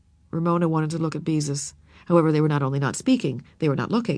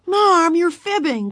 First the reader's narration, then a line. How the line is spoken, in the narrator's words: cried Beezus in exasperation